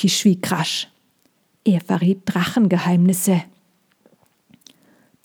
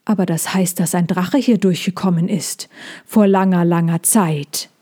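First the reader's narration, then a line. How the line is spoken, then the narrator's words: Plain. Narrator (German): sagte er dann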